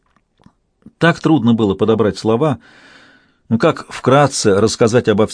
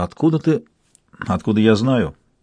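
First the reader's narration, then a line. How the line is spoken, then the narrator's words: Quiet doubtful snort. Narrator (Russian): Он тихо хмыкнул, словно бы недоверчиво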